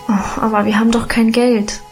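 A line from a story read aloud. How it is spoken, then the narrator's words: Sighing. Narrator (German): seufzte ich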